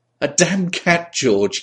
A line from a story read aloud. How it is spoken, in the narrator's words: giggled nervously